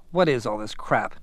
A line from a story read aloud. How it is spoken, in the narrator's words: muttered with a little smile